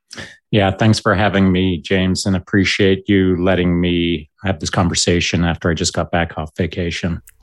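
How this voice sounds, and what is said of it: Canadian accent. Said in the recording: “from your accent, people can probably tell that you're from Canada”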